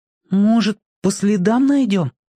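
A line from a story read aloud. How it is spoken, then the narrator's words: Hesitant suggestion. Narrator (Russian): неуверенно предложил Петька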